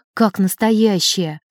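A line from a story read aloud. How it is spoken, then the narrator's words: Sighing. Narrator (Russian): вздохнул Сергей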